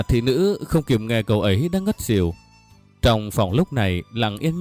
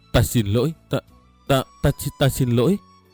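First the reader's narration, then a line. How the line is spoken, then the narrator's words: Remorseful boy stammering. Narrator (Vietnamese): Cậu chợt thấy hối hận vô cùng, lắp bắp nói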